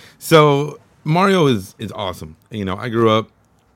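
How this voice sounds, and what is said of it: Usual voice. Nothing is said of it.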